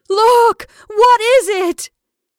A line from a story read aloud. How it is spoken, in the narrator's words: Rebecca burst out in a wild wail